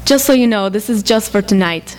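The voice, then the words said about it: Poor put-on Israeli accent. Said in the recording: “I have a really bad Israeli accent.”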